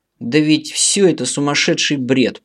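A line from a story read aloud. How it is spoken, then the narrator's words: Hissing, nearly shouting. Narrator (Russian): прошипел один из собеседников, едва не сорвавшись на крик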